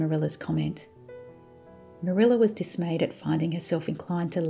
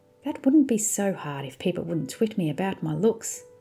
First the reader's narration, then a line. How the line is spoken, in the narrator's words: said Anne with a sigh